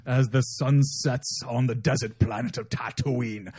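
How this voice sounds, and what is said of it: Put-on pirate accent. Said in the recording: “I don't know why I got the pirate accent there at the end”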